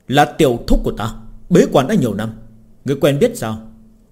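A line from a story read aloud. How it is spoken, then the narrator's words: Angry young man. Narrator (Vietnamese): Kiếm tu trẻ tuổi tức giận nói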